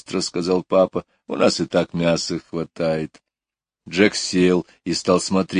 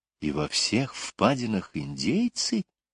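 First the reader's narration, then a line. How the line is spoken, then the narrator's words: Whispered question. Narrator (Russian): шепотом спросила Лора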